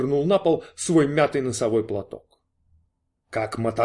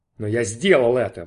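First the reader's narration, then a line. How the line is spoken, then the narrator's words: Exclamation. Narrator (Russian): воскликнул он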